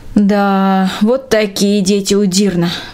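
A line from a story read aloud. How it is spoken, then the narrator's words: Sighing. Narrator (Russian): вздохнула Трина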